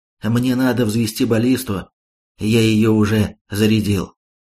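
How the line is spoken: Calm. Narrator (Russian): крыс спокойно ответил

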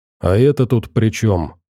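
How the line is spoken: Irritated question. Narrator (Russian): раздраженно спросил Борода

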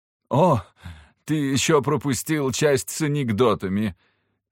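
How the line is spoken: Laughing then coughing. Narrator (Russian): Она рассмеялась, закашлялась

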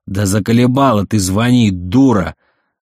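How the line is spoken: Full-force yelling. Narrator (Russian): Заорала Лилька во всю мощь

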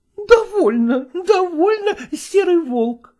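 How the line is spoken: Exclaiming. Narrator (Russian): воскликнула

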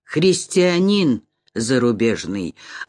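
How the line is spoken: Calm answer. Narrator (Russian): отвечал спокойно

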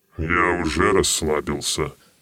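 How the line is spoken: Mumbled. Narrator (Russian): пробормотал тень король

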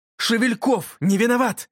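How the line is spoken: Shouting. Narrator (Russian): закричал я

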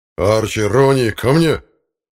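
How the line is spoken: Thunderous call. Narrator (Russian): громовым голосом окликнул собак Владимир Вениаминович

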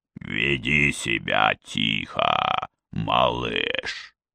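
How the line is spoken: Hiss. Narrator (Russian): прошипел

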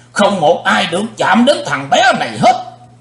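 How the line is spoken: Thunderous shout. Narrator (Vietnamese): Sư diện quái ma hét tạo sấm

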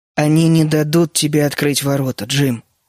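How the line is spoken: Soft. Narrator (Russian): мягко сказал Генри

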